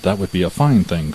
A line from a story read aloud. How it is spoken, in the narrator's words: cried the miller